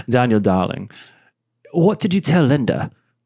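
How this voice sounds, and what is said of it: Australian voice with British-leaning accent. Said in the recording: “he's Australian with a got more British accent now ... you're very good at accents”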